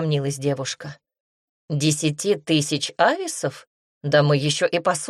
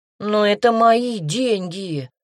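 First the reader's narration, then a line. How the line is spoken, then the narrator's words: Desperate moan. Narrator (Russian): простонал Серж в последней надежде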